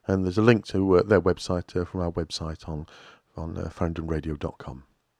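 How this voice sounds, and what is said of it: Husky, sore-throated voice. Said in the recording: “sorry about my voice... it sounds quite husky... I've got a bit of a sore throat”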